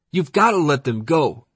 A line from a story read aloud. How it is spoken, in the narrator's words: a black kid yelled